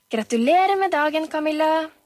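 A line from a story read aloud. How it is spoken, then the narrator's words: Cheerful shout. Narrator (Norwegian): ropte en munter stemme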